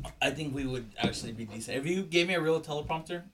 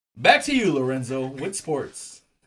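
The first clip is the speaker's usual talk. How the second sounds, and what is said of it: News anchor voice. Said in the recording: “putting on the news voice... News voice is one of my favorites”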